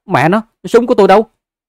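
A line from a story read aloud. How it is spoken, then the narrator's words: Alarmed loud shout. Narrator (Vietnamese): sắc mặt thay đổi, hắn hét ầm lên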